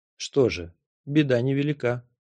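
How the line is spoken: Calm. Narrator (Russian): спокойно сказал Нок

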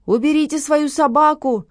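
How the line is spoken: Owner shouting. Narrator (Russian): закричал хозяин Лесли

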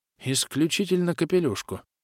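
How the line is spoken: Absent-minded mutter. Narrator (Russian): рассеянно пробормотал, думая о чем-то своем

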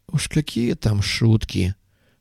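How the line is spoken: Sorrowful sigh. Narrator (Russian): горестно вздохнул пастух

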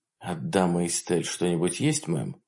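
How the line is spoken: Quiet question. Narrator (Russian): спросил тихо

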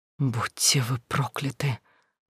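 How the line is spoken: Loud hoarse whisper, woman. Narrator (Russian): Громким сорванным шепотом повторила несчастная женщина

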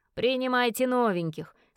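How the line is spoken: Laughing grunt. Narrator (Russian): смеясь хрюкнул Вилли

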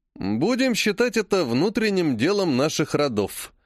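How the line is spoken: Plain. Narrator (Russian): наконец ответил Олег

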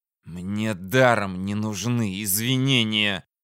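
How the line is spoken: Hiss. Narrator (Russian): прошипел Корделли

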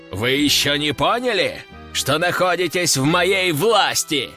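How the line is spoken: Roaring. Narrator (Russian): взревел граф

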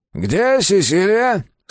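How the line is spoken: Startlingly loud question. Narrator (Russian): спросил он, и так громко, что все вздрогнули

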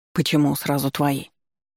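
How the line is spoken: Evasive grumble. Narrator (Russian): Пробурчал он, старательно пряча глаза

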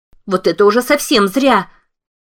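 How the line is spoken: Wailing yell. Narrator (Russian): завопила послушная разумная

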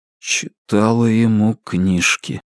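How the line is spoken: Muffled mutter, strange voice. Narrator (Russian): глухо пробормотал, не узнавая собственный голос

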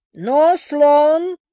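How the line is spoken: Growled into phone. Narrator (Russian): прорычал он трубку

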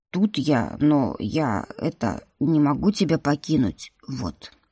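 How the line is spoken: Nervous mutter. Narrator (Russian): Нервно пробормотал хранитель

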